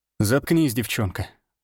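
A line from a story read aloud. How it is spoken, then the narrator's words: Tired. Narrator (Russian): устало сказал я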